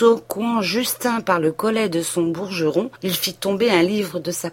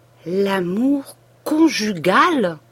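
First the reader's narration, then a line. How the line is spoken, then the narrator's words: Slow, deliberate words. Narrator (French): dit-il en séparant lentement ces deux mots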